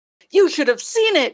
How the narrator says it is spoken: she exclaims

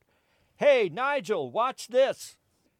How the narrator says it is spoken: God yells out

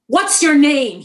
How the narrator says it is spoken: he shouted

